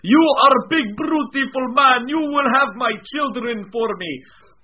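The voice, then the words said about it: Put-on Russian-accented woman's voice. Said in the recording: “I didn't know she was Russian.”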